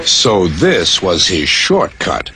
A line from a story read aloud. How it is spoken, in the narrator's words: chuckled Duck